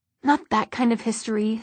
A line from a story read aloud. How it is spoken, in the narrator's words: said Alec irritably